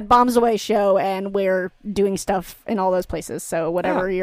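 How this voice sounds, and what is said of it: Usual voice. Nothing is said of it.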